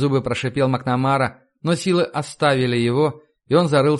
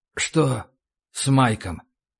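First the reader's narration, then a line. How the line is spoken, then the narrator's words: Muffled quiet question. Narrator (Russian): Вопрос прозвучал глухо и тихо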